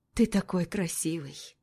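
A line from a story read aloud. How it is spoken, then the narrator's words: Tender. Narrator (Russian): Нежно произносит она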